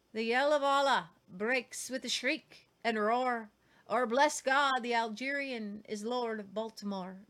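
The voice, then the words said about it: Put-on Irish accent. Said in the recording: “That's my Irish accent, sorry.”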